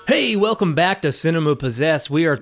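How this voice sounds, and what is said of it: Radio DJ announcer voice. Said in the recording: “my radio DJ voice”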